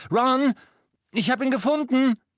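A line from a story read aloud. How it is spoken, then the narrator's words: Called over shoulder. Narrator (German): Sie wandte den Kopf und rief über die Schulter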